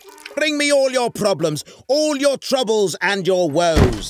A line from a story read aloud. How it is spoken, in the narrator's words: he screamed